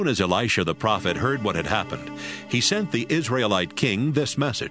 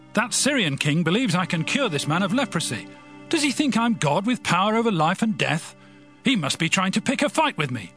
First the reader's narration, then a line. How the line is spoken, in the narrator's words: in fear and shouted